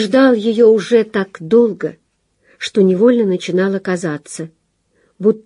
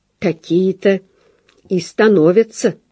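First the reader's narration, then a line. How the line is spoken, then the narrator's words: Quiet. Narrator (Russian): тихо сказал Вовка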